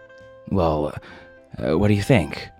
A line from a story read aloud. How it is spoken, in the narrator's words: Madison said, his voice anxious as if the answer mattered very much